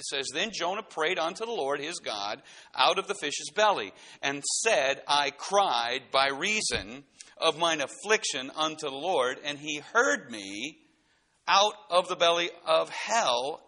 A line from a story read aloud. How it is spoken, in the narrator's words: cried I